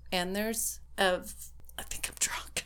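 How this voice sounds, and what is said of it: Whispered line. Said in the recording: “I like how you whisper that.”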